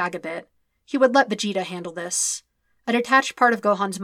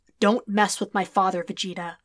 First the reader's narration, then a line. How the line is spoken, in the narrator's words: he said in a low, deadly voice